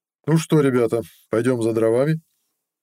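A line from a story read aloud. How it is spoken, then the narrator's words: Forced cheerfulness. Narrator (Russian): нарочито бодро сказал маг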